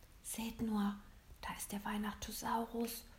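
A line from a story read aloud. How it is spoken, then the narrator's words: Worried whisper. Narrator (German): flüsterte William besorgt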